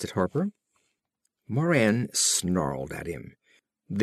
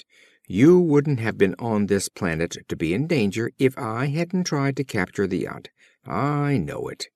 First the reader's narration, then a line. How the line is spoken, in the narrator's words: Moran snapped